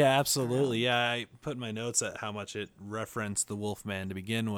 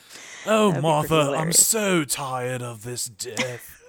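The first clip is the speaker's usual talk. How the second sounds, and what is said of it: Stuffy put-on British accent. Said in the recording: “That was your British impression? ... It's my stuffy British impression.”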